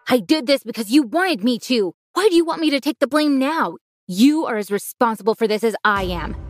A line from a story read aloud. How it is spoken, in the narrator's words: My dad was yelling